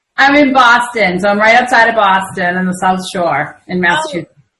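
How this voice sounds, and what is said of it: Boston accent. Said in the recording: “Now I can hear your accent. I have a good friend from Boston.”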